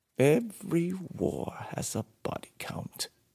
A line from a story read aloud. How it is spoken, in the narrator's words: he said bitterly